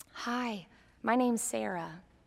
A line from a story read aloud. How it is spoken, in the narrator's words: whispered